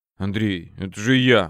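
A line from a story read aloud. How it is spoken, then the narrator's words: Mumbling. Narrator (Russian): бормотал тот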